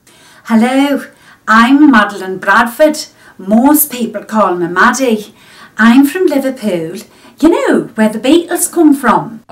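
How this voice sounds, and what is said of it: Inconsistent put-on Scouse accent. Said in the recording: “this is a lady from Australia ... this is her Scouse accent ... That's like three different accents already ... Newcastle, Barnsley”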